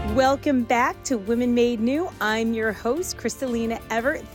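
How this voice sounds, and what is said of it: Strained, sick-sounding voice. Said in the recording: “I was losing my voice. ... if it sounds like I'm crying or I'm just a little sick ... it just came out in my voice”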